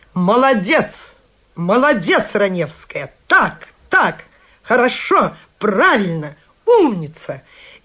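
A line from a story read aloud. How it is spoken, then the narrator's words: Enthusiastic shouting. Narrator (Russian): он кричал мне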